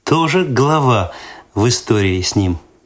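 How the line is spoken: Laughing. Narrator (Russian): засмеялась Светлана

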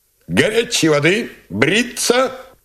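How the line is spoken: Shout, then grumbling. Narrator (Russian): крикнул Гулько, ворчливо договорил

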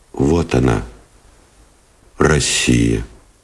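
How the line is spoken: Quiet and serious. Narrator (Russian): тихо и серьезно сказал Новиков

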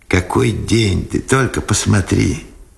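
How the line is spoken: Joyful. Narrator (Russian): радостно сказал Сенцов

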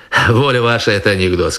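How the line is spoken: Plain. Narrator (Russian): сказал я

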